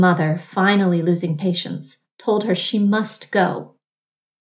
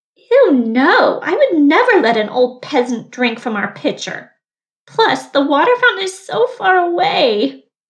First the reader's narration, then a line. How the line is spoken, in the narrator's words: the girl whined